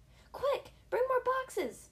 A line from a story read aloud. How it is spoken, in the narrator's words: yelled a man with a tall white hat